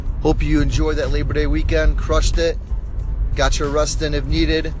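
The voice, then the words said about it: Stuffed-up congested voice. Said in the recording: “Sorry for my voice. ... definitely a little stuffed up”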